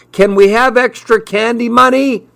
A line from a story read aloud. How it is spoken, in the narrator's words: he yelled